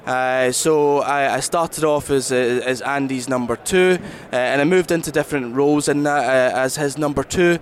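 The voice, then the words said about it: Strong Scottish accent. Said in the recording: “You have a little Scottish accent there. ... I've got a very Scottish accent, yeah. So I'm from the southwest of Scotland.”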